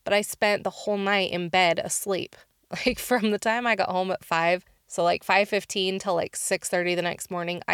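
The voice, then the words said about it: Slightly off voice from cold. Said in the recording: “my voice is a little off. I'm just getting over a cold”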